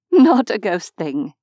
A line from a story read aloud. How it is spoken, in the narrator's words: told him with a laugh